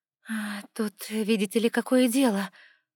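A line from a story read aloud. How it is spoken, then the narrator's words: Dejected sigh. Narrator (Russian): удрученно вздохнула я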